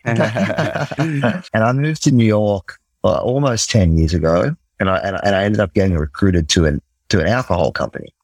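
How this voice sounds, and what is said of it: Australian accent. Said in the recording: “So I'm from Australia. Might be able to hear it in me. In the accent.”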